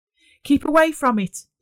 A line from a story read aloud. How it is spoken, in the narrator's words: Dave shouted